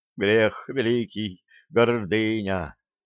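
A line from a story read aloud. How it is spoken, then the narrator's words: Muffled, hollow voice. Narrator (Russian): глухо заговорил Киприан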